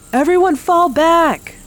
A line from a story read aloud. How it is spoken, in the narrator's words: Maria shouted